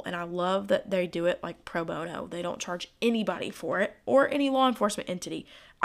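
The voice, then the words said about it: Hoarse, fading voice. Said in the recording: “my voice is slowly going out... My allergies are so bad right now... my tonsils feel like they're the size of like ping pong balls, and usually at night it gets harder to talk”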